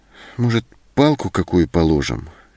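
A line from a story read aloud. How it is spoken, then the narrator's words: Uncertain. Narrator (Russian): неуверенно предложила Зоська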